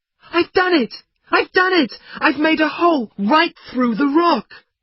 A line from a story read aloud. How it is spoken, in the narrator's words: he cried out